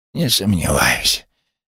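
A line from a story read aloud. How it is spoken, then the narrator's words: Creaky, regaining speech. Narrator (Russian): проскрипел скряга, когда вновь обрел дар речи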